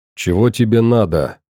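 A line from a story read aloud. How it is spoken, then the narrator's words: Irritated question. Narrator (Russian): раздраженно спросил он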